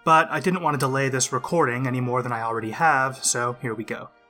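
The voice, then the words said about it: Voice sounds a bit off. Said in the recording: “my voice sounds a bit off. I'm getting over a winter cold and still not back to 100%.”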